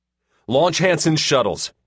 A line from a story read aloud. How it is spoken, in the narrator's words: Kyle barked